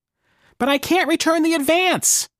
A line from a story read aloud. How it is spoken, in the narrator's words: whined Marvin